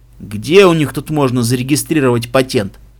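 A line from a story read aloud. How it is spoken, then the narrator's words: Snorted. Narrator (Russian): Единорожка фыркнула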